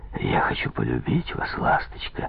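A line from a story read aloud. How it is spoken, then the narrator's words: Whisper. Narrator (Russian): прошептал Попов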